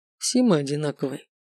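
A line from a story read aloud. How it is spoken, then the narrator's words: Quiet male voice. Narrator (Russian): тихо сказал он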